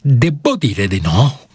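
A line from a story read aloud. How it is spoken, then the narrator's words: Stammered. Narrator (Italian): balbettò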